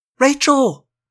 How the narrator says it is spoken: Cassie gasped

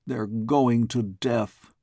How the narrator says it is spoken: groaned the President

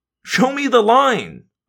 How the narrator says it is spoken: I begged

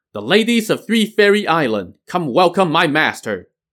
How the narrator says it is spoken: Chief Priest Xuan Du shouted

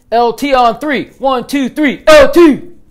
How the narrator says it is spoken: the team yelled

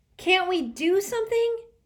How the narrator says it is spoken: Sticky cried

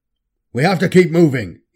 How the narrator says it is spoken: snapped

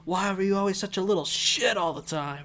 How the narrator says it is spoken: he was just yelling at himself

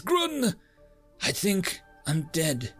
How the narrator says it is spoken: pants for a few moments, with an abnormally wide, frightened eyes and says

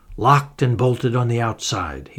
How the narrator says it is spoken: growled

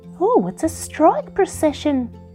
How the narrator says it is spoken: exclaimed Winky

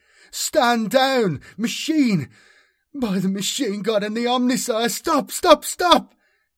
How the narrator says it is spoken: he pleaded

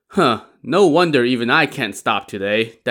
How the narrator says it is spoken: Dai Zong said

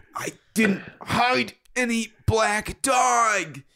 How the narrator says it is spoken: he gasped

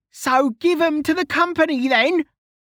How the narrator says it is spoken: Kettle yelled

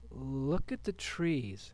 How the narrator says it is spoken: started Lisa with a faltering voice

